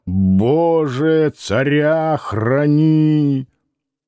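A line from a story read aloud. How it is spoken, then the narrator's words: Drunk old man growling. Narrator (Russian): Пожилой пьяный человек рычал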